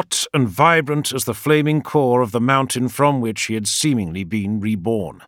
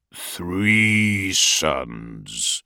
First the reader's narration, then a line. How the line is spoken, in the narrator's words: he said, his voice as deep as thunder